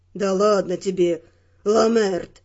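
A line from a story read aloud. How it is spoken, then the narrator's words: Grumbling mutter. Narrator (Russian): пробурчал один из них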